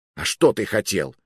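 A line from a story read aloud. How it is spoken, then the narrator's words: Snapping back. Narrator (Russian): огрызнулся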